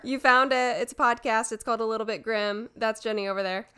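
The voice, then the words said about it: Sore throat, vocal fry. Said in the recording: “I have a little bit of a sore throat still ... So sorry about the vocal fry.”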